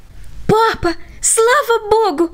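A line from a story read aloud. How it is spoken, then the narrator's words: Boy's joyful shout. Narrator (Russian): радостно закричал мальчик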